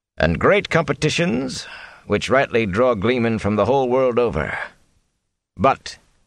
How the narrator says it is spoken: he added dryly

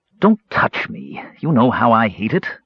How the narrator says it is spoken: the mage snarled

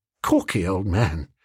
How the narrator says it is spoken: I said, massaging him tenderly

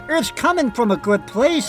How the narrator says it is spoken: pleaded

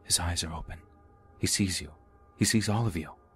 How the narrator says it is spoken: I heard someone right outside the window whispering

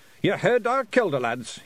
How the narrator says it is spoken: he shouted

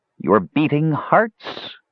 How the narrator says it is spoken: cried the old woman

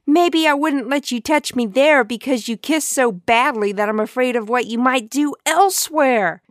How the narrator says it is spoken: she screamed at him

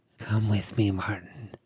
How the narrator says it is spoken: she whispered again

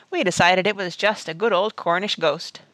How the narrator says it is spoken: he chuckled

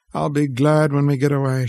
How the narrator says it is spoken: she sighed

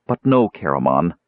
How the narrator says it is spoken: Tika said grimly

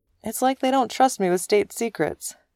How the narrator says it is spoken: the captain said cheerfully

